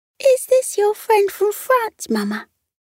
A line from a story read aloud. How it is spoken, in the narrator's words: one of the little stoats asked in a squeaky voice